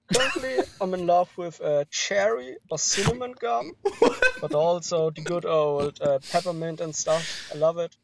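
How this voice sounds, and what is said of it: German accent, possibly fake. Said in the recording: “can we address whether that was a fake or a real accent? ... It sounded pretty fake to me. ... oh, hello, I'm his German. Like, it felt, very performative in a fun way.”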